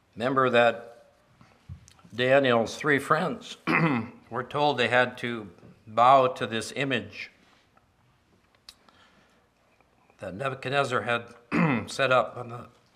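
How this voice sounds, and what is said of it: Strained, hoarse voice. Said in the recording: “excuse me, I'm losing my voice,”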